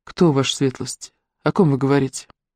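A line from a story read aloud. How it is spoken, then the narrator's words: Quiet question. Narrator (Russian): Андре де Монбар тихо спросил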